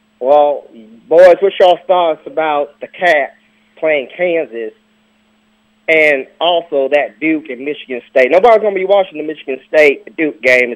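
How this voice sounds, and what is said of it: Southern US country accent, Kentucky. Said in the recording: “is this a real country accent? ... Kentucky”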